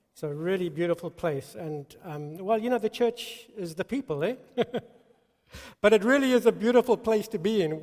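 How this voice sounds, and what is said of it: Mixed South African accent. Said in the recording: “my accent ... Mine's a mongrel, you know? It's kind of like turned into a thousand things since I've been in the States ... South African.”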